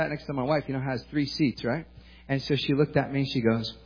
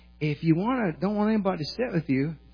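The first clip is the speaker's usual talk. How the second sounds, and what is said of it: Weak imitated Southern accent. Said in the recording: “she's from the South, and she had this accent like that ... I can't do her accent very good”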